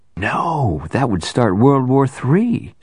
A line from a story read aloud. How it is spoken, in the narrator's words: exclaimed